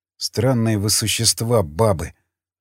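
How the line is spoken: Muttered. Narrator (Russian): пробормотал

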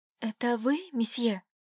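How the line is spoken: Stunned whisper. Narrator (Russian): Ошарашенно Катюша прошептала

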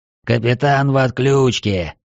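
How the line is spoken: Growl. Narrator (Russian): прорычал громобой

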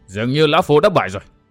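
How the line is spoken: Panting, slow speech. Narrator (Vietnamese): Người ngồi giữa thở hổn hển nói chậm rãi

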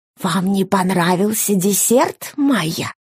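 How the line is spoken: Loud stage whisper. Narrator (Russian): спросил он театральным шепотом, который было слышно на другом конце стола

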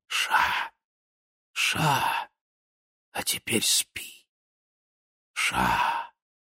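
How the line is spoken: Whisper into neck. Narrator (Russian): Губы прошептали ему в шею

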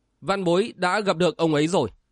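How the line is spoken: Stern voice. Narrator (Vietnamese): Đinh Tiểu Nam nghiêm giọng

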